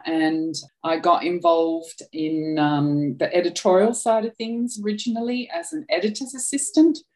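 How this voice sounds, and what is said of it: Australian accent. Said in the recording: “I'm Australian, as you can probably tell from my accent.”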